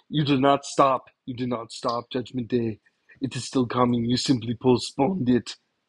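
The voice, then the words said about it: Poor imitation of another person's voice. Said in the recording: “do a really bad impersonation ... my horrible impersonation of Arnold Schwarzenegger”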